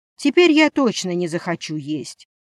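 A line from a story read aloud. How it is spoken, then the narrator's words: Heavy sigh. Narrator (Russian): Дерек тяжело вздохнул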